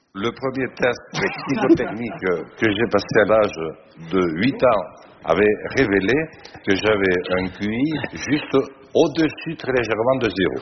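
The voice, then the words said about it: Strong Bigourdan southwestern French accent. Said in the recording (French): “son bel accent bigourdant ... il parlait comme ça”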